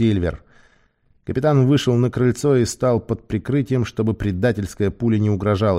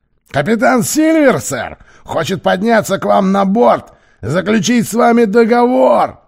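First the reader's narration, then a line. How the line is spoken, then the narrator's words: Shouting. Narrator (Russian): прокричал он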